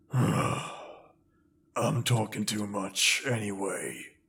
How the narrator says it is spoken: he grumbled

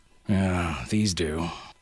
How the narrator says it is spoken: Harasthi grunted

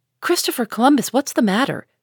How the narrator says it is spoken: cried Jo

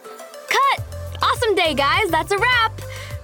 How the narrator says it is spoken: Kim interrupted us to yell

